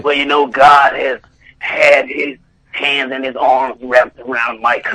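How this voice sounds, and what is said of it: Imitates another person's voice. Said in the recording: “my impersonation ... I kind of sound like Matthew Slater ... That's very well done.”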